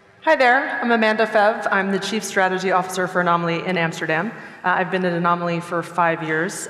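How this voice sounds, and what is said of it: American-French accent. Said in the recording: “As you can tell from my accent, I am not from here. I'm American and French.”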